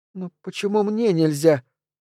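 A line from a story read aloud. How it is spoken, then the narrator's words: Timid squeak. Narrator (Russian): робко пискнула Лиззи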